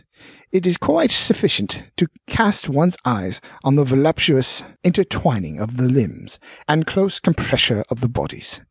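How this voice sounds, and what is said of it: Put-on British accent. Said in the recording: “put on my best British, or worst”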